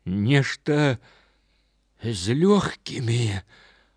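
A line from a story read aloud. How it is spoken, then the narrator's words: Weak voice. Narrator (Belarusian): адказаў баксёр слабым голасам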